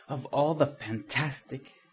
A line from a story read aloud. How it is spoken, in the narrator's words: gasped an indignant female voice